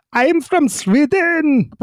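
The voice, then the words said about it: Rough put-on Swedish accent. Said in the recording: “you can do a Swedish accent and get away with it ... That's a rough impression there”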